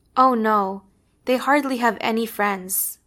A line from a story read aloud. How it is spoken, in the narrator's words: Mom says